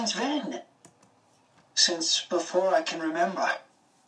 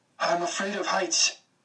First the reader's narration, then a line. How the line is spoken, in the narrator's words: I said between breaths